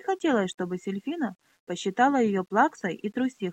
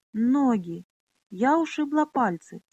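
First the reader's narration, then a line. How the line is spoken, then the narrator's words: Tearful. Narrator (Russian): сквозь слезы проговорила Миноле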